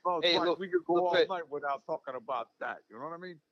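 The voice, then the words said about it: Robert De Niro impression. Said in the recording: “great De Niro impression”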